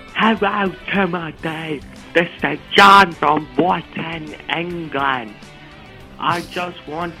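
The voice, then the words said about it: Very poor fake English accent. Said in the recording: “got to be the worst fake accent ever.”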